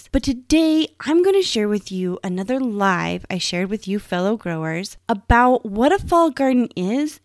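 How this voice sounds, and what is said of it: Strained voice from a cold. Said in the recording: “my voice is a little stressed. I don't know if you can hear it. I'm still healing from that cold”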